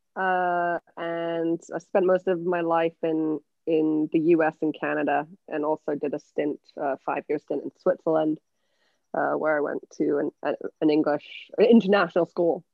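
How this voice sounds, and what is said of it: Mixed English accent. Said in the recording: “My accent's from England... So that accent's a bit all over the place.”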